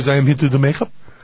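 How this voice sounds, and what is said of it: Put-on non-Italian foreign accent. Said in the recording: “I'm going to be doing an accent here. He was Italian. The accent hearing will not be Italian”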